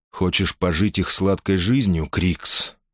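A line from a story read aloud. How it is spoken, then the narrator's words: Plain. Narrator (Russian): спросил он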